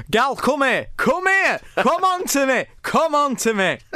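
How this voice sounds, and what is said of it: Put-on Yorkshire accent. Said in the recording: “Said in a Yorkshire accent”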